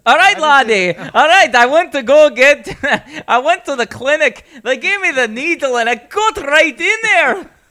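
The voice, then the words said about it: Put-on Scottish accent. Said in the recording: “I need to channel my Scottish guy ... All right, that's Scottish. ... That's good.”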